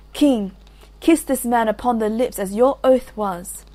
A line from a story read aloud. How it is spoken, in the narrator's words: Iseult cried